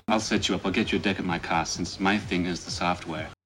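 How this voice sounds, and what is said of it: Inconsistent mixed English-Australian-American accent. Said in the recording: “with a questionable accent ... who fades in and out of a broken weird English / Australian / American and then reverse that every single time he talks”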